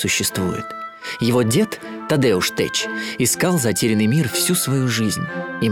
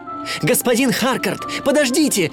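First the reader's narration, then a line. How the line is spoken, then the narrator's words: Shouting. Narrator (Russian): кричал он директору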